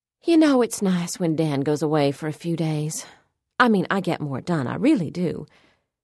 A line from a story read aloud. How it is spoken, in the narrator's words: She sighed down at the material in her hands and said, more to herself than to me